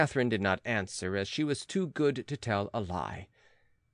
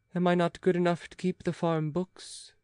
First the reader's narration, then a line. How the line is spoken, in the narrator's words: sighed Pitou